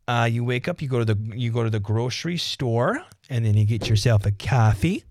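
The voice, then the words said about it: Put-on Midwestern Minnesota accent. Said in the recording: “being back in the heartland, you get a lot of this accent going on here”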